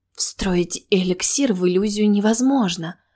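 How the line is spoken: Breathless admiring exhale. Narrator (Russian): выдохнула она с восхищением

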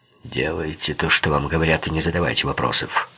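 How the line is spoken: Grumbling. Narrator (Russian): проворчал Лицци

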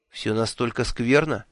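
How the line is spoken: Dejected question. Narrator (Russian): упавшим голосом спросила Миламари

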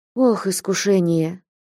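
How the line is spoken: Deep bitter sigh. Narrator (Russian): глубоко и горько вздохнул Василий Борисович

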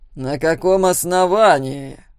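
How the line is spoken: Loud question. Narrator (Russian): громко спросил Тед Фуллагер

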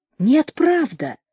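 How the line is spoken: Heartfelt voice. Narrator (Russian): сказал Шульга проникновенным голосом

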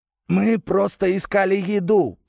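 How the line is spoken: Hoarse rasp. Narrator (Russian): прохрипел Валера

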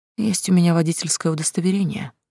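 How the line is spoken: Sighing. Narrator (Russian): девушка вздохнула

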